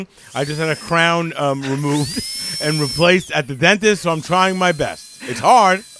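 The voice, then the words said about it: Numbed speech with softened S sounds. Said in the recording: “you hear my voice is a little different. My S's are not as pronounced. I'm biting my tongue ... I'm under a tremendous amount of Novocaine”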